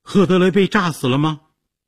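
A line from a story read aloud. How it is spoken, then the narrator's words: Shouted question. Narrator (Chinese): 杰西卡 大叫着问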